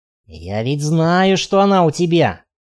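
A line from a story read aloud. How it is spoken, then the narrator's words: Hissed. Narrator (Russian): прошипел он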